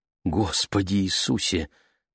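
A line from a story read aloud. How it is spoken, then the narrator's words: Mother's whisper. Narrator (Russian): прошептала мама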